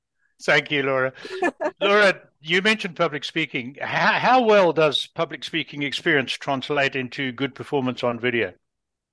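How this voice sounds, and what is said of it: Foreign accent. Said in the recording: “I speak with a bizarre accent anyway, because I grew up in a different part of the world”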